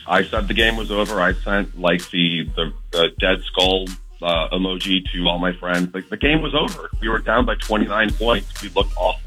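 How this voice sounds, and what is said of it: Hoarse, nearly lost voice. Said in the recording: “I'm not surprised that you can't talk. ... I lost my voice.”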